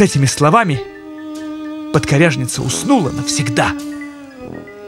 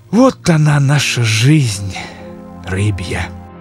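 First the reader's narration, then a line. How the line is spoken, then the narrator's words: Sigh. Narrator (Russian): вздохнул он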